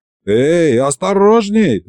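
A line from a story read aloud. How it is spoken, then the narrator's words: Yelled. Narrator (Russian): заорал я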